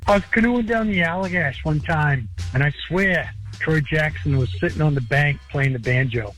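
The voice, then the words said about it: Maine accent. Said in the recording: “That's a real accent ... someone who's never spent much time in Maine”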